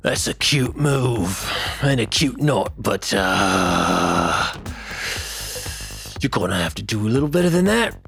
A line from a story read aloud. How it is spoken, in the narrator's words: the orc, who grunts and says